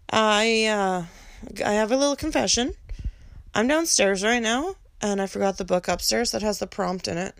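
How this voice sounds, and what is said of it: Sore, slightly rough voice. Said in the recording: “Pardon my voice a little bit tonight. It's a little sore.”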